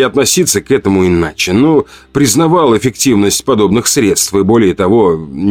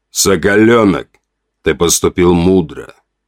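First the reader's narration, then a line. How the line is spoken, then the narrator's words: Muffled, hollow voice. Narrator (Russian): глухо произнес вождь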